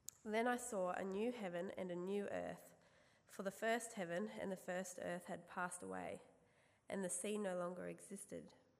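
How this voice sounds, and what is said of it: Croaky, slightly hoarse voice. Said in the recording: “My voice is a little bit croaky, but it's louder than it's been all week”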